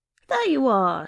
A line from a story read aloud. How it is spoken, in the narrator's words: she said with a yelp of triumph